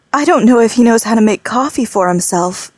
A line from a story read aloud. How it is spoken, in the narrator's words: Mylene said, with a sad little laugh